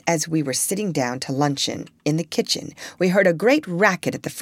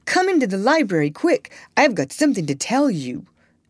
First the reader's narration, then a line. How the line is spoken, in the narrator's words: he cried